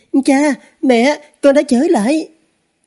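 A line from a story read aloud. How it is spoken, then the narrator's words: Child's flustered cry. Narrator (Vietnamese): Cái đứa nhỏ kia cuống quýt kêu lên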